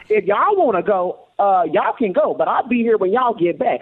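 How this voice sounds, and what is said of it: Southern American accent. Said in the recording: “I'm hearing the Southern accent now”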